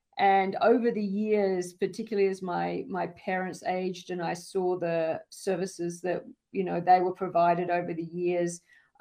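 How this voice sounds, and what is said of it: Australian-accented English. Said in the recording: “As you can probably tell from my accent, I didn't grow up here in the United States, and I grew up in the outback of Australia.”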